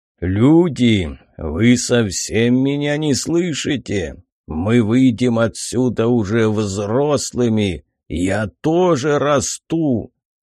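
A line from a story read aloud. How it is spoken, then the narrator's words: Dragon roaring. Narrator (Russian): прорычал дракон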